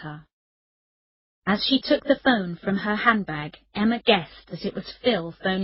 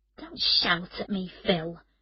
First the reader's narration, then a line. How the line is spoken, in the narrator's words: Emma said quietly